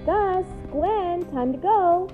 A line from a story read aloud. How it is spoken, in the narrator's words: called out